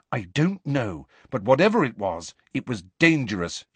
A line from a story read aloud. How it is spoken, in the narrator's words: she said firmly